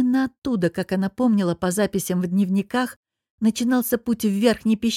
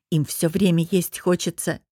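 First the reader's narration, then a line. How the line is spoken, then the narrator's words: Grumbling. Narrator (Russian): буркнула Софья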